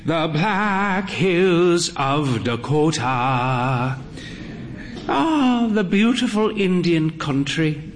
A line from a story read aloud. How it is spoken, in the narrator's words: sighed